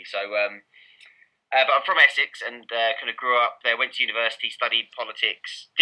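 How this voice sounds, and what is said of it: Essex English accent. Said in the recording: “I'm from Essex, as you probably tell from my accent.”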